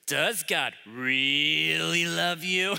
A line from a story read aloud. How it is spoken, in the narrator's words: Nash says it in a really creepy voice